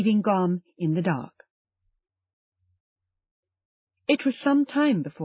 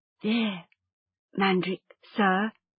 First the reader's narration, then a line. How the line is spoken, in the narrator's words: he said softly